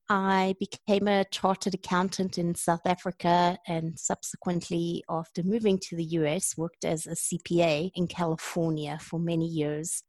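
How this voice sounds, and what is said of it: South African accent. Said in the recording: “I love your accent too, from the South Africa. It's a wonderful accent.”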